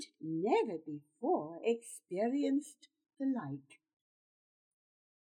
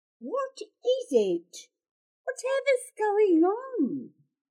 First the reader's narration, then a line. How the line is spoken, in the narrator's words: say, and sounding quite quavery too